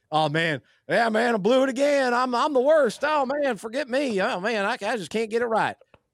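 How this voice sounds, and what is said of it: Put-on Southern mountain accent. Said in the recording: “You're laughing at my impression ... Are you impersonating your fellow classmates in Mountain Town, App State? Is that what everyone sounded like? ... These are my people. I'm a southern guy”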